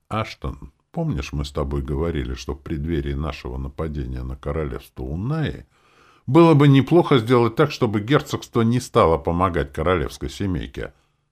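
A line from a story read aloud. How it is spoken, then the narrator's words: Calm question. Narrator (Russian): спокойно задал вопрос маркиз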